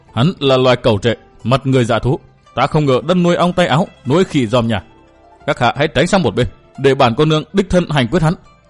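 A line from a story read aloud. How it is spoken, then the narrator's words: Hissed through clenched teeth. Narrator (Vietnamese): Giọng nàng rít qua kẽ răng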